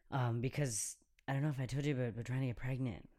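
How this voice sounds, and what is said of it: Whispering. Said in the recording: “Why am I whispering? ... because we've got headsets on, probably.”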